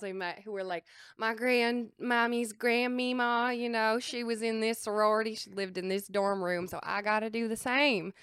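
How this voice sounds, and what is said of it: Southern US accent with twang. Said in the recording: “I love your southern accent ... that southern twang was gonna come out”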